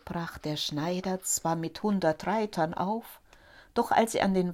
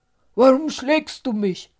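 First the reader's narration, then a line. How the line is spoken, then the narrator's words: Angry question. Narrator (German): fragte er wütend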